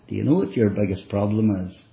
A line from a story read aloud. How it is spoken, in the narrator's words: I said to her, as gently as I could, I said